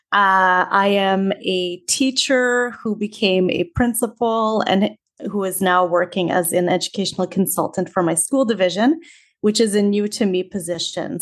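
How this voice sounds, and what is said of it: Canadian accent. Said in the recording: “You can probably tell from my accent that I'm not Australian. I am from Canada.”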